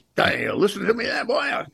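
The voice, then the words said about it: Foghorn Leghorn impression. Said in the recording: “Foghorn Leghorn ... Good an impression”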